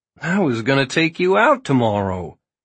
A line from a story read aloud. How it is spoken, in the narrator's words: laughed, quick and delighted